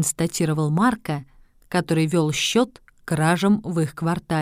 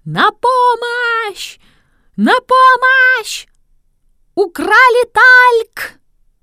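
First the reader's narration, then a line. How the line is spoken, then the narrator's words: Terrified screaming. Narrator (Russian): какая-то сеньора, в ужасе схватившись за голову, закричала страшным голосом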